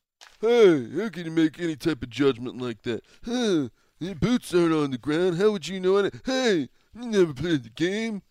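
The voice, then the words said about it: Mocking voice of a know-it-all critic. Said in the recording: “Who was that an impression of? ... That's society. ... That's the football cognoscenti. ... more like the average idiot on Twitter”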